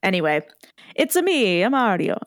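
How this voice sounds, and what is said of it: Put-on Italian accent. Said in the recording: “It'll be like a hate crime to do an Italian accent”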